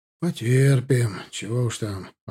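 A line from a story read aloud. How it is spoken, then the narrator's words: Sighing speech. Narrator (Russian): вздохнув, проговорил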